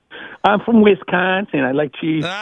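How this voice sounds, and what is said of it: Put-on Wisconsin accent. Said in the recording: “A Boston guy doing a Wisconsin accent”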